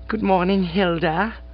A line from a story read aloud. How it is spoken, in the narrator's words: said the Bassett in that soupy, treacly voice